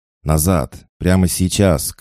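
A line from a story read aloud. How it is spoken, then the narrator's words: Shouting. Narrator (Russian): крикнул он Илюхе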